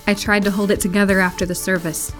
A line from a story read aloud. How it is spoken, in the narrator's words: she said